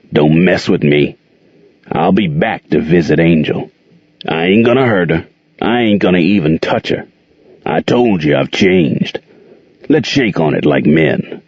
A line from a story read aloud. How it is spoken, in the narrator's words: Jordan growled at Gerald